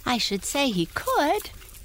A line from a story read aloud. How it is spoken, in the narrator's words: cried Tiny Tim with a laughing whinny